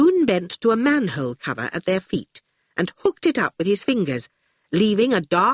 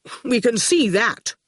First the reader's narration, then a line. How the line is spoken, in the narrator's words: Quentin said impatiently